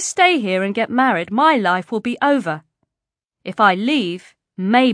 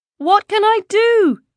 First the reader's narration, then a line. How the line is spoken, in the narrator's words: Shazia asked, the question coming out as a wail